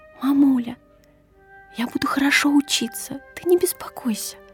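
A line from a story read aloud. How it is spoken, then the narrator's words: Whispered promise. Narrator (Russian): Я обещала ей шепотом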